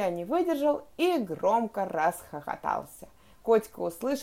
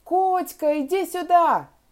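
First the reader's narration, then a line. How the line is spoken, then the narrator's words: Sudden shout. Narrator (Russian): Он вдруг закричал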